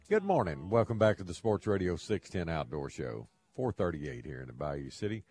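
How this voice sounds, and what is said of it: Slight Southern drawl. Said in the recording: “Got a little southern drawl in my tongue.”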